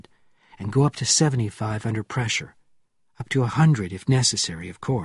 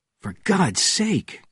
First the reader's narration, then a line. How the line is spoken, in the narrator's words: cried Bourne